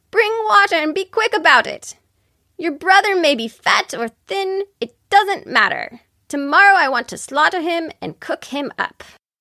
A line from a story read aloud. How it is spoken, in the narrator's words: she called out to the girl